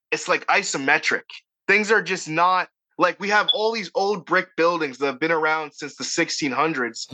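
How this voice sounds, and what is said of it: Boston accent, dropped R's. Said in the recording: “I have a Boston accent. ... I can't say Martha Stewart for the life of me ... the missing R thing”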